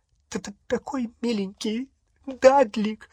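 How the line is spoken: Sobbing. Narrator (Russian): всхлипывала она

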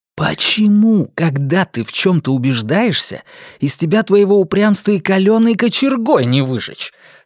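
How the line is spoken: Angry hiss. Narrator (Russian): в сердцах прошипел он

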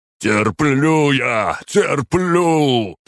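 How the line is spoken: Shouting, roaring through teeth. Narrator (Russian): прокричал он и, стиснув зубы, вновь заревел, как зверь

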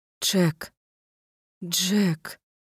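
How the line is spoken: Sobbing words. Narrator (Russian): Сквозь рыдание расслышала я собственные слова

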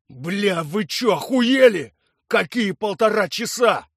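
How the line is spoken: Furious roar. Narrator (Russian): взревел Виктор Иванович

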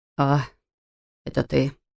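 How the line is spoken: Sighing. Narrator (Russian): вздохнул он

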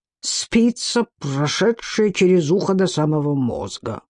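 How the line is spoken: Muttering. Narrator (Russian): пробормотал серая хитрость

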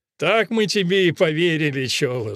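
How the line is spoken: Laughing. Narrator (Russian): засмеялся лейтенант

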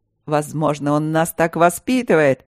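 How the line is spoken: Cheerful guess. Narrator (Russian): весело предположил Мартин

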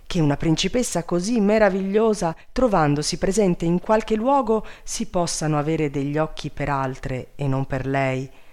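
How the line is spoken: Exclaimed. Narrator (Italian): esclamò Grazioso

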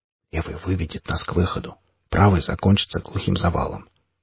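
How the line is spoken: Whispered explanation. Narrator (Russian): шепотом пояснил мех

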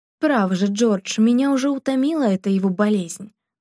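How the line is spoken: Angry woman's voice. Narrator (Russian): говорила женщина сердитым тоном

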